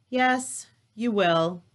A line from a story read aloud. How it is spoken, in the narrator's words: Jesus sighed